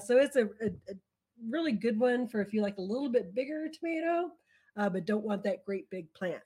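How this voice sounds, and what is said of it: Strained, fading voice. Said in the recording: “losing my voice today”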